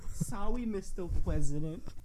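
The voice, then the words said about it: Baby-like imitated voice. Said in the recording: “Why do you talk like a baby? ... Because I'm talking like Marilyn Monroe. ... You sound like Huckleberry Hound. ... this fucking speech impediment”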